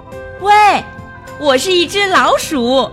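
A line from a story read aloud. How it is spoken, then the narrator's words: Loud. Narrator (Chinese): 米茜大声地说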